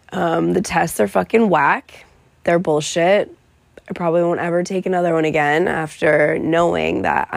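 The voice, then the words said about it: Sick, weakened voice. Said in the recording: “straight up on my, like, grave right now. Very, very sick. You can obviously hear it in my voice.”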